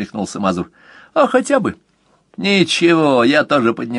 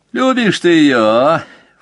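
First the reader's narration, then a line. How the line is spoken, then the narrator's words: Snorting scoff. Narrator (Russian): фыркнул Мазур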